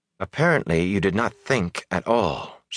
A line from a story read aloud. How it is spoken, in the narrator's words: she said, coolly composed once more